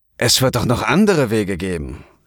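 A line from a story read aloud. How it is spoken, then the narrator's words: Snapping. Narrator (German): schnauzte Keno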